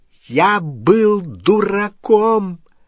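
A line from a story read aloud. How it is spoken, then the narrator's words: Very loud exclamation. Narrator (Russian): воскликнул Перси так громко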